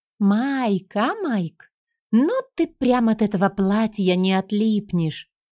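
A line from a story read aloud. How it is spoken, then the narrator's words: Giggling young woman. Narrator (Russian): хихикнула низенькая скуластая девушка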